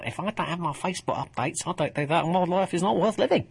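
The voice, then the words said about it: Put-on Essex accent. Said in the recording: “that wasn't my attempt at a Welsh accent ... I just sort of felt a sort of Essex wave coming over me.”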